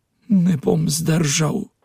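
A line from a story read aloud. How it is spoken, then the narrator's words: Pained whisper. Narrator (Slovenian): ves zaripal v muki, prišepnil sobratu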